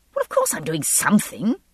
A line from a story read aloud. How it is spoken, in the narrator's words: I snapped